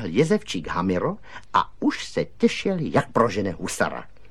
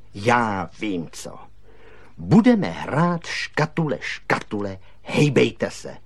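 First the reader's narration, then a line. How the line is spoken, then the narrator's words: Plain. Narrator (Czech): řekl kaktus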